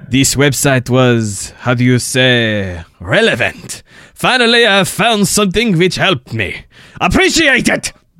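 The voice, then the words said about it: Stereotypical put-on French accent. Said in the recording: “say it in a stereotypical French accent ... That was a terrible.”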